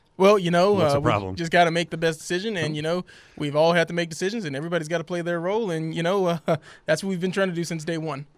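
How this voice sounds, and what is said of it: Mimicking the coach's press-conference speech. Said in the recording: “mimicking”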